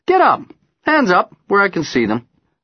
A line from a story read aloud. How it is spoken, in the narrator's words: I tell him cheerfully